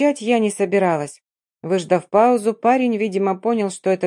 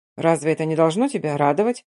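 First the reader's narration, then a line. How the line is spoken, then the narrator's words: Plain. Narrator (Russian): спросил он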